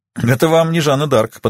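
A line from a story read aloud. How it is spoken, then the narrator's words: Chiming in with chuckle. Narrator (Russian): подхватил я и хохотнул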